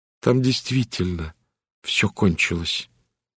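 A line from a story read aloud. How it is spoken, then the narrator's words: Quiet. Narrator (Russian): тихо сказала Генриетта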